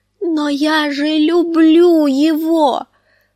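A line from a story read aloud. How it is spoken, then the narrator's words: Frightened distressed moan. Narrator (Russian): простонала Санса в смятении и испуге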